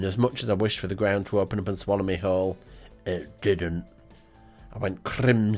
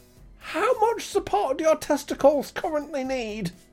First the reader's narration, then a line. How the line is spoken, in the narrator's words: he shouted